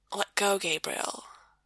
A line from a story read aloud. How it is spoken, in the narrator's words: Sam whispers